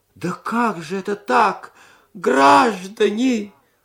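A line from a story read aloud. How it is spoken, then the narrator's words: Old man moaning womanishly. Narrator (Russian): застонал старик по бабье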